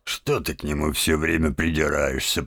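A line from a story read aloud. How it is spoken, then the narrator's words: Grumbling. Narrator (Russian): проворчал мистер Барсук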